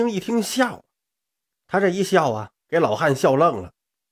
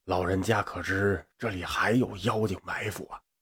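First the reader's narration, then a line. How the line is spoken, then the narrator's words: Quiet. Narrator (Chinese): 小声跟这个老汉说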